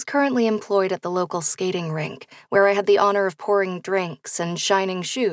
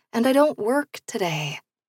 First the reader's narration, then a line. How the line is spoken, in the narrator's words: I mumbled